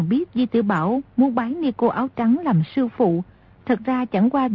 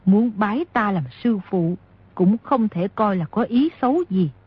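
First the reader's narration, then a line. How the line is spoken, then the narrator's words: Smiling. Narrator (Vietnamese): Nico áo trắng mỉm cười nói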